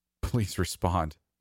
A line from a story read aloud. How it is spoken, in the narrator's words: he begged, defeated